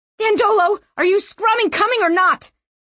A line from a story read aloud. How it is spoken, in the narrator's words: She coughed and cried